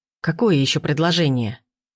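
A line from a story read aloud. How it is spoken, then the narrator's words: Angry question. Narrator (Russian): Зло поинтересовалась Татьяна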